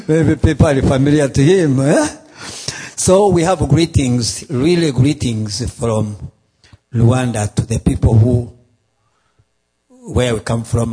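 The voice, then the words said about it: Strong accent, hard to understand. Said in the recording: “they can hardly understand my accent ... my accent is too hard”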